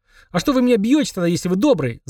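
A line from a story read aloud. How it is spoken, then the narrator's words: Yelling. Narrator (Russian): завопил Эдик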